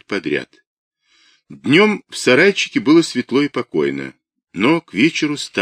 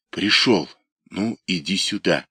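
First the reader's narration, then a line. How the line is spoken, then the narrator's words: Quiet calling. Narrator (Russian): тихо позвал он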